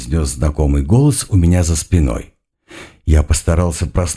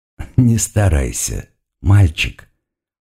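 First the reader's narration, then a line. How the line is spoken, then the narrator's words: Purring demon. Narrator (Russian): промурлыкал демон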